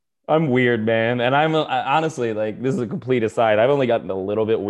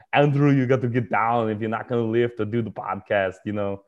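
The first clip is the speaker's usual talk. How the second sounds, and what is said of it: Imitates another person's voice. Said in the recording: “impersonations ... I do Arnold for everything”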